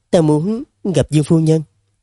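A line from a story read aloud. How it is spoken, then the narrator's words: Hesitant, stammering blurt. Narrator (Vietnamese): nàng lại lúng túng chẳng biết mở lời ra sao, ấp úng một hồi rồi mới buột miệng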